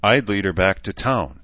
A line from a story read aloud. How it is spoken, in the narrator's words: he said, finally, with a slight sigh that might have been regret